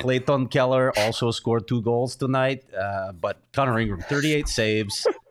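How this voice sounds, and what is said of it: Put-on Eastern European accent. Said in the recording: “Random Eastern European accent”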